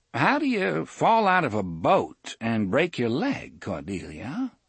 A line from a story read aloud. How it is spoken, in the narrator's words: She laughed merrily